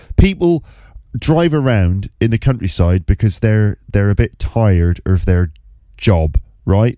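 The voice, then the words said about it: Put-on accent while telling story. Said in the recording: “I don't know how to say that word in this accent”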